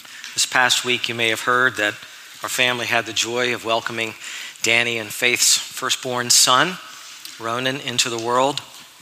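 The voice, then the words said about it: Soft, strained voice. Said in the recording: “I've been praying for my voice. It hasn't really gotten a lot better ... my voice is a little softer”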